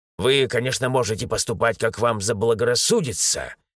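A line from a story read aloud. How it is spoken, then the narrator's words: Rude reply. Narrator (Russian): грубо ответил он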